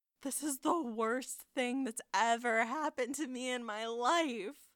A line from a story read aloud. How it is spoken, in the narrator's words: Michael groans